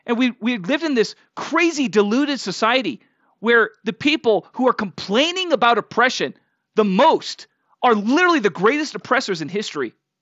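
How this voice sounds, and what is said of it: Raised, heated, yelling voice. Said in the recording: “I'm getting a little ramped up... I'm not meaning to yell at you guys... I'm not yelling at you, right? But I'm yelling at the reality of the situation.”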